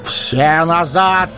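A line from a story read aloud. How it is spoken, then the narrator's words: Shouted. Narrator (Russian): крикнул Гэндальф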